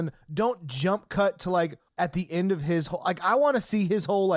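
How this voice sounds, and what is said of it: Usual voice. Nothing is said of it.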